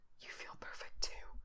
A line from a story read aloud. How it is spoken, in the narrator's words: Frank whispers